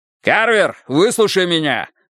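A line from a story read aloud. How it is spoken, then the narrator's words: Yell. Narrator (Russian): заорал Страйк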